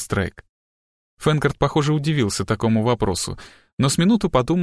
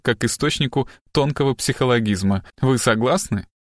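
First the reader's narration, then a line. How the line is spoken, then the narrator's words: Short laugh. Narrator (Russian): коротко хохотнул он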